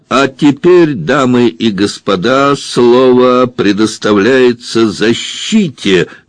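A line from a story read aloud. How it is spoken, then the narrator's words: Loud announcement. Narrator (Russian): громко объявил Девре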